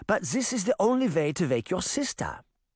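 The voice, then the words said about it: Light German accent. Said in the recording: “in her light German accent”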